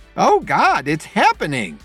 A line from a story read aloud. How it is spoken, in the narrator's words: she exclaimed